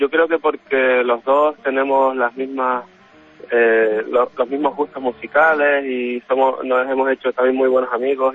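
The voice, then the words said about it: Canary Islands Spanish accent. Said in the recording (Spanish): “le notamos el acento canario, es original de Canarias”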